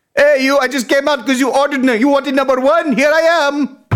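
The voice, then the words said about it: Put-on Jamaican accent. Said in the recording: “he's got a Jamaican accent.”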